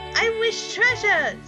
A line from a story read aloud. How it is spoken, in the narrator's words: cried Baby Moore